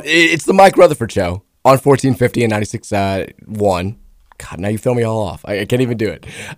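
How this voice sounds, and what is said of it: Voice sounds unusual, off. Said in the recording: “my voice sounds weird.”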